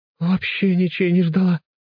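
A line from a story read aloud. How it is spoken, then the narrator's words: Sobbing. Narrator (Russian): кажется, она всхлипнула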